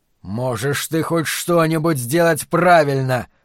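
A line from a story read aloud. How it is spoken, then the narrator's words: Roaring. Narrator (Russian): проревел Флэг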